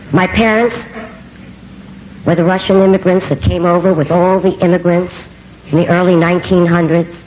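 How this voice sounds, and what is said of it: New York accent. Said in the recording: “I can't get rid of my New York accent ... when someone says you've got a New York accent, you should see it get heavier and heavier and heavier”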